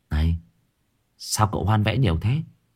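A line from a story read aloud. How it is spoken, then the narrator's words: Whispering. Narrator (Vietnamese): Thằng Nam cận ... thủ thỉ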